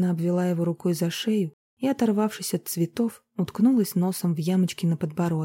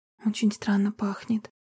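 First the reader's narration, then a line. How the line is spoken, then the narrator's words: Whisper. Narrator (Russian): прошептала Марина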